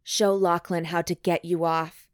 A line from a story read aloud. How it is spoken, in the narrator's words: Hugh growls